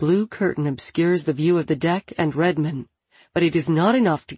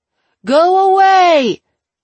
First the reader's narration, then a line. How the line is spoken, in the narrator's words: Wen shouts